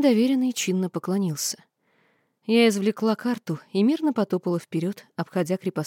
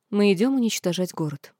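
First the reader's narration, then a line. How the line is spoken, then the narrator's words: Calm explanation. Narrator (Russian): спокойно пояснила я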